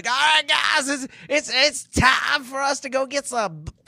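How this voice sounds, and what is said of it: Imitates another person's voice. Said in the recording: “Pretty good Shatner impersonation.”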